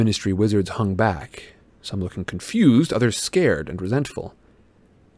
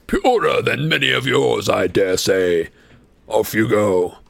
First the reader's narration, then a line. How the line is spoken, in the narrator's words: he boomed to the Muggleborns